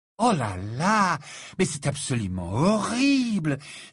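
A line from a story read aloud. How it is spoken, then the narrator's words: Affected, shocked exclamation. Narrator (French): s'exclama Fleur avec un haut-le-corps affecté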